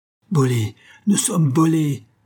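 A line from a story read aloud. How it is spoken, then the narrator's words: Furious, desperate yelling. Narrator (French): hurlèrent-ils furieux et désespérés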